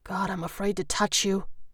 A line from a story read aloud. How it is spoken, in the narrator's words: he murmured